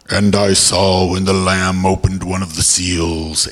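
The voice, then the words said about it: Cryptic, ominous reading voice. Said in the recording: “in a very cryptic voice”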